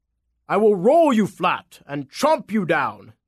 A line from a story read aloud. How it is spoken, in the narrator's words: the apple bellowed